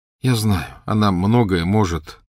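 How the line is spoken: Tired. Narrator (Russian): устало сказал Гарри

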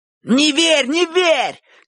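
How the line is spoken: Eager shout. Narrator (Russian): крикнул Шурик, как человек, больше всех заинтересованный в победе Боча

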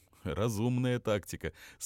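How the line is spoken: Laughing. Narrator (Russian): смеясь кивнул ей Безюка

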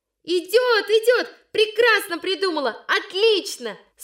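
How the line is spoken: Girls shouting again. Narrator (Russian): снова закричали девочки

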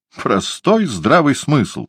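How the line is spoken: Indignant snort. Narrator (Russian): возмущенно фыркнула ракет

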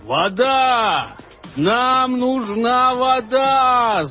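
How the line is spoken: Yelling. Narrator (Russian): заорал он

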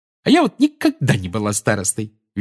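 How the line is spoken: Cheerful, from behind. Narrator (Russian): весело сказала Тонкс у Гарри за спиной

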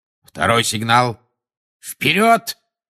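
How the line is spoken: Barked command. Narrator (Russian): рявкнул Люпин

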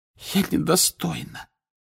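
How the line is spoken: Hoarse voice. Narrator (Russian): хриплым голосом проговорила Фляр

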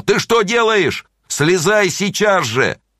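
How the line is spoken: Frightened loud shout. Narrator (Russian): он испугался, и он громко закричал

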